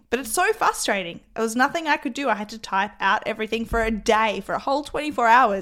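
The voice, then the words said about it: Croaky voice. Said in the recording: “I still sound somewhat croaky today ... please excuse the sound of my voice”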